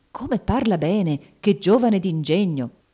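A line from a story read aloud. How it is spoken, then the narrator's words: Exclaiming into ears. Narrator (Italian): Il duca esclamava all'orecchio dei vicini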